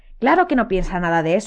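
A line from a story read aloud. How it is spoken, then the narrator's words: Agitated exclamation. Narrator (Spanish): exclamó Hermión agitada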